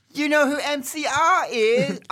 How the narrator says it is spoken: I gasped

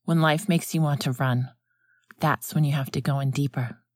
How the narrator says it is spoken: Alan said, and his tone was gentler now

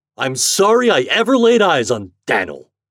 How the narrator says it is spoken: exclaimed Mr

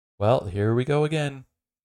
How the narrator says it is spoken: says the Brigadier

